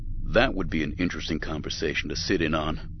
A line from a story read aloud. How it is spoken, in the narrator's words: Windu said dryly